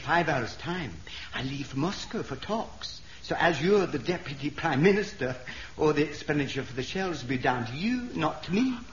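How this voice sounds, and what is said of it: Terrible Scottish accent. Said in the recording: “why have you got such a terrible Scottish accent”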